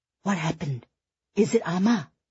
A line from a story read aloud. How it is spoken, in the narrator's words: Eddie whispered to Fiona